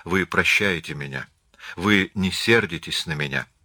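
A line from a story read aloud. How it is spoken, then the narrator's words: Timid question. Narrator (Russian): Он робко спросил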